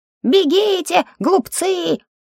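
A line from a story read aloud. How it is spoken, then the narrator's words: Squeaky shout. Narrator (Russian): Писклявым голосом он кричал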